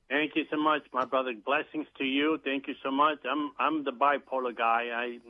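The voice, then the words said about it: New York accent. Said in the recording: “I live in New York City. I got the accent from there”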